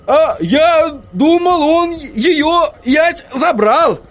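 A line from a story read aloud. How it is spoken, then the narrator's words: Hopeful exclamation. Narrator (Russian): воскликнул господин Тюльпан, и лицо его озарилось надеждой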